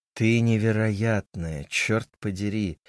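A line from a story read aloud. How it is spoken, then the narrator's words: Affected close drawl. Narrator (Russian): манерно протянул ей прямо в лицо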